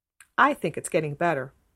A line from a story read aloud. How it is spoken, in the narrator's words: said Catherine firmly